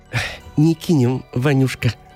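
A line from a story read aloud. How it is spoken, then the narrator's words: Affectionate, young woman. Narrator (Russian): заговорила ласково дочь бабы-яги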